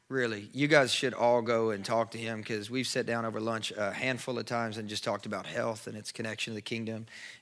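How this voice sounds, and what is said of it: Strained, worn-out voice. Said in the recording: “my voice sounds like this ... not to scream my head off”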